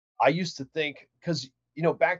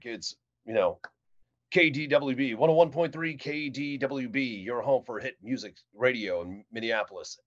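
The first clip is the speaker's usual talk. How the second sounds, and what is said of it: Classic radio DJ announcer voice. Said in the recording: “Can you do the radio voice? ... back during that time in radio, people would be like”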